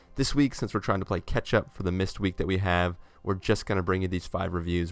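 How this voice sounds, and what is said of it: Voice slightly affected by illness. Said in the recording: “dealing with some sicknesses. You can probably hear it in my voice a little bit”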